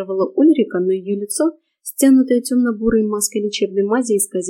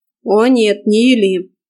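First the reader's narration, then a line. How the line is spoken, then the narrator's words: Sharp rebuke. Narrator (Russian): прикрикнул на нее Морган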